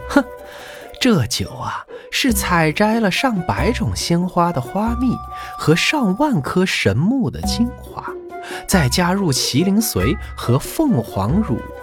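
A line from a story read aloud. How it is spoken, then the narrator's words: Sneering laugh. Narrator (Chinese): 那警幻冷笑了一声，然后说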